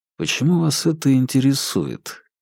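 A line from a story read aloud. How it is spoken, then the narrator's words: Asked quietly. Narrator (Russian): тихо спросил Феликс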